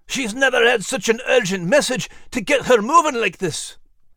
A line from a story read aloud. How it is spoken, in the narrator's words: panting heavily to catch her breath